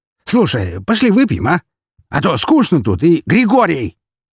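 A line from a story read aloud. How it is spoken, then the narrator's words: Sharp bark. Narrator (Russian): Перебив Броницкого, рявкнул Армфельд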